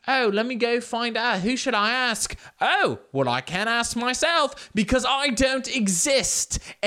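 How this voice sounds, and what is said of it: Put-on butler accent, not convincing. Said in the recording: “this accent is not quite good ... my name isn't actually Jeeves, and I am not actually a butler”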